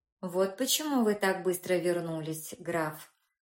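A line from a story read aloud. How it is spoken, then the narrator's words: Calm. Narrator (Russian): спокойно отреагировал Фатье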